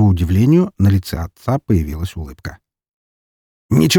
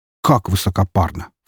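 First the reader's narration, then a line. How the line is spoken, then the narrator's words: Scornful snort. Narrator (Russian): фыркнул Роман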